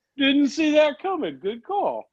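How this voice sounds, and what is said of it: Einstein impression voice. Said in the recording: “is that Einstein's accent? ... Yeah, that's his accent.”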